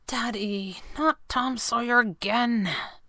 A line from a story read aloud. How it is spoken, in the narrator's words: Abigail almost whispered